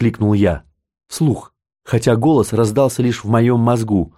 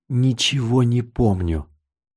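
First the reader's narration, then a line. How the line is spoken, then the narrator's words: Whisper. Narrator (Russian): прошептал я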